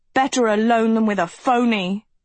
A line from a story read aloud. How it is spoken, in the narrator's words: Agatha shouted